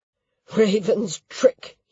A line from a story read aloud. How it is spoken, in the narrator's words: growled